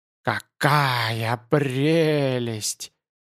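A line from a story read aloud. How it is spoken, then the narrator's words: Hoarse trembling voice all around. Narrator (Russian): Хриплый дрожащий голос доносился со всех сторон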